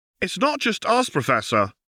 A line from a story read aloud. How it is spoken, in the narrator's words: another Gryffindor called out